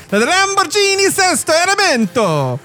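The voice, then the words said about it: Put-on Italian accent. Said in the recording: “I got to say this in an Italian accent.”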